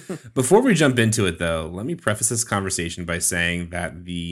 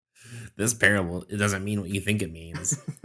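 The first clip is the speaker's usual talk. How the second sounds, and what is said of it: Mocking nerd voice. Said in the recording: “my derogatory nerd voice”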